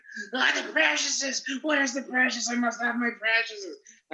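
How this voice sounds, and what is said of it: Bad Gollum character voice impression. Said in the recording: “a shitty Gollum impersonation”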